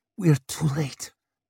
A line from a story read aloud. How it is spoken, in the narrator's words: she mumbled